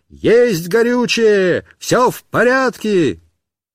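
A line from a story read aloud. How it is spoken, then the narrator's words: Shouting. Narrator (Russian): кричал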